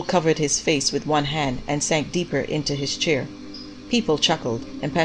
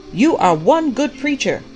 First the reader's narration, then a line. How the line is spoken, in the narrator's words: the prophet shouted back